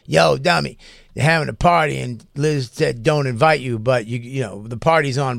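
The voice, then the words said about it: Imitates another person's voice. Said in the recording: “That's not a good Keith or stroke impression.”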